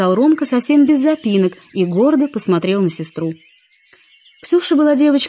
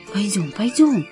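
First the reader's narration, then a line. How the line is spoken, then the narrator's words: Soft. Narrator (Russian): тихонько сказала она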